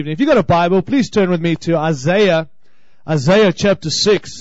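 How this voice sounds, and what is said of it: Noticeable accent. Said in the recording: “I hope you can understand my accent, all right? Is it funny?”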